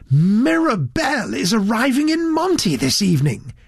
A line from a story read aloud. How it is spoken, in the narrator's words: he confided excitedly to Mr